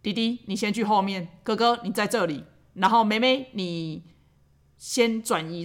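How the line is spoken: Slow, calm. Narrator (Chinese): 然后再缓缓的跟他们讲说

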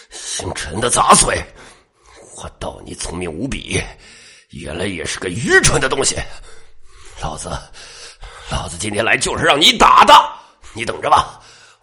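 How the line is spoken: Hateful, through gritted teeth. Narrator (Chinese): 他仇恨的看向陈阳，咬牙道

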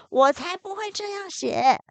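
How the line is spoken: Lion shouting. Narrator (Chinese): 狮子大叫

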